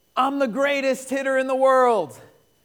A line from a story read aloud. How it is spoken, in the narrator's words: He shouts